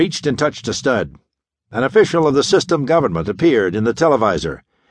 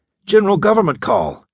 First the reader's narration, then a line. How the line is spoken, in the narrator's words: exclaimed Sparks, his youthful face stiffening